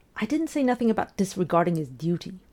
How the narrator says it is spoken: Ray snapped

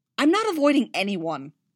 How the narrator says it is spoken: Leia snapped

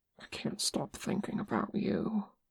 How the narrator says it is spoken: whispered

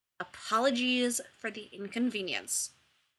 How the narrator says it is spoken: McKay muttered

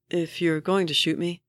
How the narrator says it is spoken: the man says, still calmly

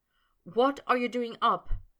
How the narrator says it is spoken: Potter said anxiously

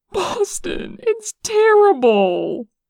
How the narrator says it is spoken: sobbed

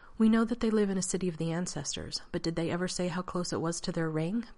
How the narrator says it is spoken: Banat asked

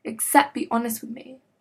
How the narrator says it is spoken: Derek spat out

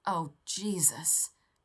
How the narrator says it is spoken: John groaned

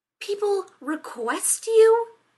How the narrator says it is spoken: Rodney snapped

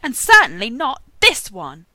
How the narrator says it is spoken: Castiel shouted

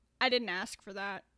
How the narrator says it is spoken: Andrew said

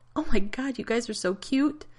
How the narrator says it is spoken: Amy giggled and said

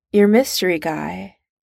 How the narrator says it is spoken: Steve says, slowly

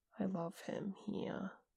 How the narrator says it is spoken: Jay said quietly

